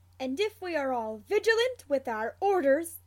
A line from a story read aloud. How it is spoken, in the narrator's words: Alastor Mad-Eye Moody barks